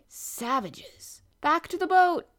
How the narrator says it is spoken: cried

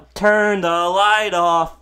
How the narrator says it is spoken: a whole side of a football stadium yell

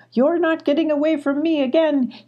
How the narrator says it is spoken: he cried, gasping for air

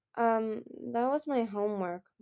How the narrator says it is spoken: mumbled a rainwing nervously

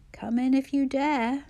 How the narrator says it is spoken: rasped

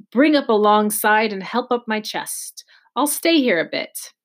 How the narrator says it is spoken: he cried

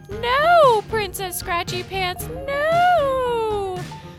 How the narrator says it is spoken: yell

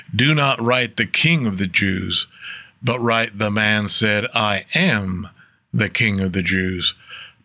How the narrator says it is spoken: Pilate answered

